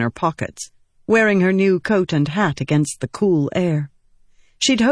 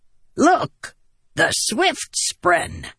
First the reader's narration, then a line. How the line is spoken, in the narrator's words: he cackled